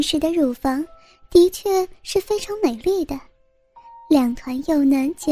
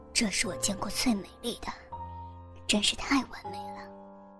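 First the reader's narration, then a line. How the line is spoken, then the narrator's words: Low exclamation. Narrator (Chinese): 他低声呼道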